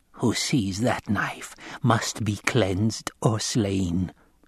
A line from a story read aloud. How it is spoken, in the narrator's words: she snarled